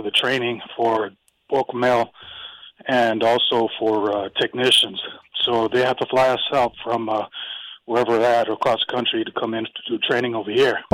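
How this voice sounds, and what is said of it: Raspy voice. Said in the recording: “My voice is a little raspy”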